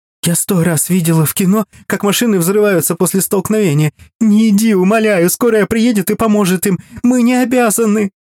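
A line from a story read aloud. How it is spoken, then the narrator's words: Nearly sobbing. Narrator (Russian): Практически рыдая, продолжала Галя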